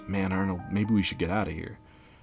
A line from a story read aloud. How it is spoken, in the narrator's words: He whispers